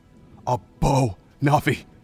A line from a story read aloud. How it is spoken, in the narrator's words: Link said, his voice shaking